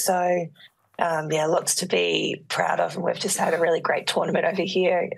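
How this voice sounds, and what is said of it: Rough, worn-out voice. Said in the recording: “You sound like you have partied 3 days straight. ... my voice sounds a little bit worse for wear.”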